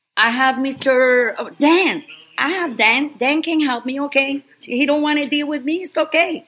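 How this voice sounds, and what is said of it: Speaks with a foreign accent. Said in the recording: “because of my accent”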